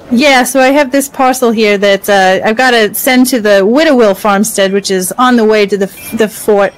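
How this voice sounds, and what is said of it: Put-on character accent. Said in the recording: “this accent just started to come out, and I'm going with it”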